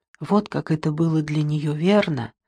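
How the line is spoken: Whisper. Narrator (Russian): прошептала Дебора

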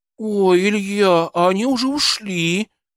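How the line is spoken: Regretful drawl. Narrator (Russian): с сожалением протянула Машенька

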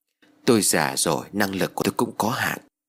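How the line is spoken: Sighing. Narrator (Vietnamese): Thầy liền thở dài rồi đáp

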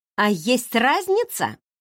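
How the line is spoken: Exclamation. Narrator (Russian): воскликнула

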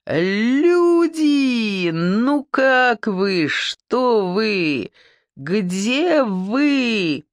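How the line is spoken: Singsong greeting. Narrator (Russian): Нараспев, произнес он

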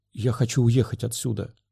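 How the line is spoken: Whisper. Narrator (Russian): прошептала Эрита

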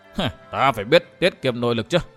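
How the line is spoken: Cold, dismissive smile. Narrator (Vietnamese): Thiếu niên Thanh Y cười nhạt đáp

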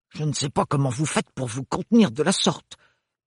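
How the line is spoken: Aunt grumbling. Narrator (French): grommela la tante Roseline

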